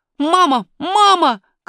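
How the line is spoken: Shouted. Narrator (Russian): крикнул он

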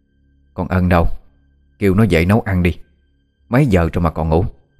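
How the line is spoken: Harsh stern woman. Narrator (Vietnamese): Bà Đan gằn giọng

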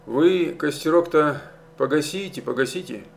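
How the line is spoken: Unusually gentle advice. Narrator (Russian): Необычайно ласково посоветовал старшина

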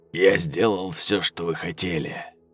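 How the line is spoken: Quiet. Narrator (Russian): тихо произнес

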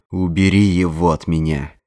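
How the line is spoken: Growled. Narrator (Russian): прорычал он

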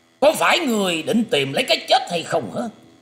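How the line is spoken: Angry loud shout. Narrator (Vietnamese): Sắc mặt của gã đàn ông kia liền biến hẳn, quát to lên

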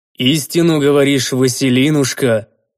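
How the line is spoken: Agreeing deep bass voice. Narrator (Russian): Согласно пробасил мужик

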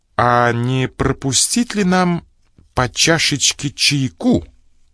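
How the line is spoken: Loud suggestion. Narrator (Russian): громко предложил я

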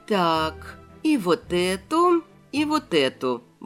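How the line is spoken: Mutter under breath. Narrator (Russian): бормотала я себе под нос

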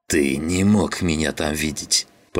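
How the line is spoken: Hissing. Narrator (Russian): прошипел

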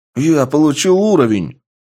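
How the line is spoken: Joyful. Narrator (Russian): радостно сказал один из бойцов

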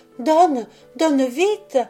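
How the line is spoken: Exclamation. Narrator (French): s'écria Béatrix

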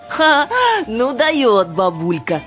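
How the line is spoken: Loud laughing. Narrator (Russian): захохотала Жанна

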